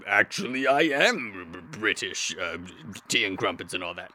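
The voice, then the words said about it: Unconvincing, non-British accent. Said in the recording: “I thought you were British, but your accent is... not British?”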